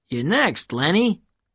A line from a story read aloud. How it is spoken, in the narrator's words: said Herman